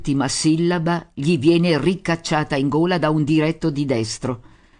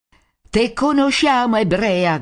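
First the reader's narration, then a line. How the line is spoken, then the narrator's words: Shouting crowd. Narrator (Italian): gridano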